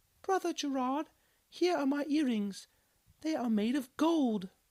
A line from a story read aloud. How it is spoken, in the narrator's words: one woman exclaimed, hastily